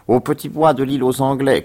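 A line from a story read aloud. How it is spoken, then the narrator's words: Shouted while moving away. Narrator (French): cria-t-il en s'éloignant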